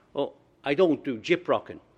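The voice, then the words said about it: Put-on Irish accent. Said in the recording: “Irish wit ... my voice is going to have to change now to give you the spirit of what was going on”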